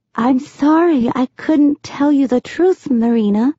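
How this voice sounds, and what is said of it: Soft, gentle voice. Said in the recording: “in her soft voice”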